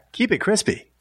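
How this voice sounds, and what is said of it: TurboTax commercial voiceover voice. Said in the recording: “do my TurboTax voice”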